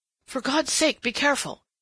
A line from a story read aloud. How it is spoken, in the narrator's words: he gasped